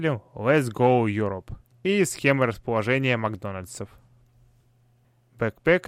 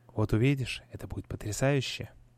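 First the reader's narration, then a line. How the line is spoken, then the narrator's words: Low, confiding undertone. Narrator (Russian): произнес он вполголоса, как будто говорил сам с собой или сообщал мне какую-то тайну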